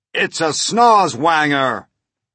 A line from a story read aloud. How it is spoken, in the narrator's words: cried the chief of police